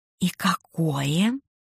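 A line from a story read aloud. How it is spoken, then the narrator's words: Whisper. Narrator (Russian): Тоже понизив голос до шепота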